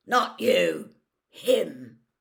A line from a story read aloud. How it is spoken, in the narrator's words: Moody growled